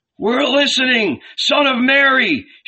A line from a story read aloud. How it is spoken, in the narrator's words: shouted the people